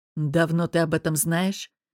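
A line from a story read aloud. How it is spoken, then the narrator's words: Growl. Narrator (Russian): прорычал он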